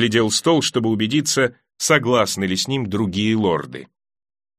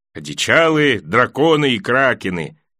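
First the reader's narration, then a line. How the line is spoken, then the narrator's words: Short chuckle. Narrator (Russian): хохотнул мейс Тирелл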